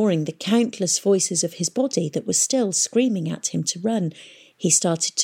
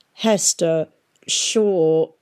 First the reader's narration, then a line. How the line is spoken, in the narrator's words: he heard say, and the voice slurred and caught like a faulty recording